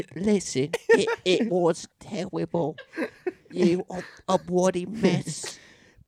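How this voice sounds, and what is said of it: Put-on British accent, Simon Cowell impression. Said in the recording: “I'm trying to do baby British Simon Cow ... your accent is so Liverpool ... I'm talking like a Peaky Blinder ... You got like the Cockney”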